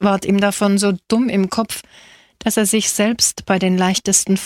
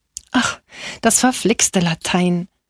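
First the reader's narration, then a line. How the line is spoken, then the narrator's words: Sighing. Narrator (German): seufzte Angelo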